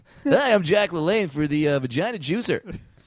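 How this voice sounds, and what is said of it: Cheesy morning radio DJ voice. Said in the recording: “I'm just going to do an impression. ... This is my like cheesy morning radio DJ Battle voice.”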